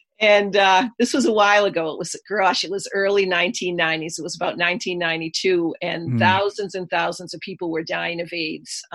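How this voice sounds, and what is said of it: Boston accent. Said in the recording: “You'll hear the Boston accent throughout”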